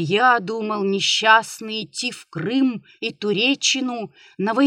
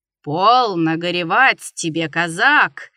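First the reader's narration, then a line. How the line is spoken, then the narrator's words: Booming bass voice. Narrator (Russian): загремело что-то басом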